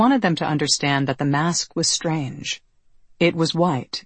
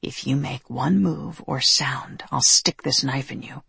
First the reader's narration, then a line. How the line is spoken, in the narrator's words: he whispered